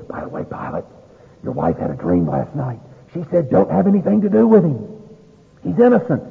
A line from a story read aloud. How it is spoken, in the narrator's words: a messenger comes up and whispers in his ear, and he says